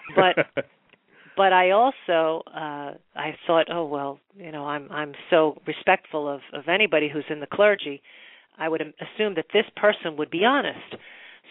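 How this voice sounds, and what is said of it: New York accent. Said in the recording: “I'm a New York Jew, if you couldn't tell by my voice.”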